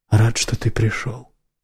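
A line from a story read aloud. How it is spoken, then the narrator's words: Sudden whisper. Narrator (Russian): прошептал неожиданно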